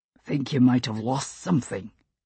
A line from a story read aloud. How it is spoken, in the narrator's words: Buck said gruffly